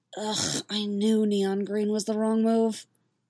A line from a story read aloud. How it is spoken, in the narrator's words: she muttered to herself